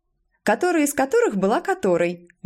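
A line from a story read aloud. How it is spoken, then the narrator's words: Cheerful girl's interjection. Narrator (Russian): весело вставила какая-то девочка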